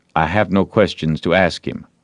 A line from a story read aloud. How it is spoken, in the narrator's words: Potter's lawyer replied